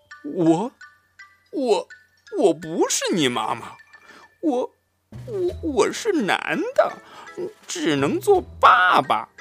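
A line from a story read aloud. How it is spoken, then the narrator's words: Stunned stammering. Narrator (Chinese): 狐狸惊呆了，结结巴巴地说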